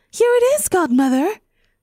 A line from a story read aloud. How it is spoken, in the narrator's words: said Cinderella breathlessly